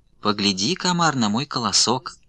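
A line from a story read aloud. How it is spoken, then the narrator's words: Sugary sweet voice. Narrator (Russian): Говорит травинка сладким-присладким голоском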